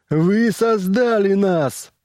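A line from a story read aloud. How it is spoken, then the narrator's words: Yelled. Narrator (Russian): заорал он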